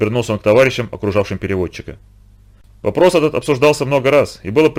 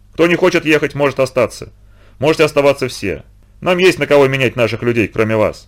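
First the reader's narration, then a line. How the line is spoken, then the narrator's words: Stern, quiet. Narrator (Russian): строго не повышая голоса, произнес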